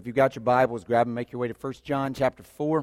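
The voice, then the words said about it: Strained, worn-out voice. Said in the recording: “We'll see how long my voice is going to hold up... not from screaming”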